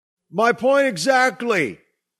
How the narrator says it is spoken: Doug yelled

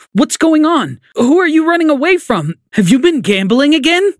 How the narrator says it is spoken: My mom screamed

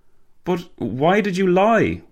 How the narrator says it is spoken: Walter gasped

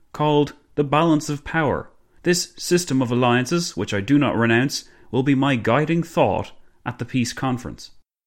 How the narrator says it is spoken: Clemenceau boomed

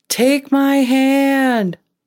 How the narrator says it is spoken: she was yelling, but she couldn't really hear anything

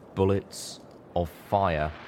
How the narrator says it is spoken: Nightbright looked back over her shoulder and mouthed slowly

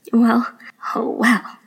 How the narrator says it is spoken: Nai-nai interrupted with a chuckle

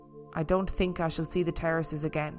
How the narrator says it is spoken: Sophia murmur

